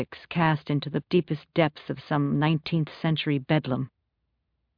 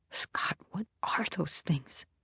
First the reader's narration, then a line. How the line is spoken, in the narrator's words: She whispers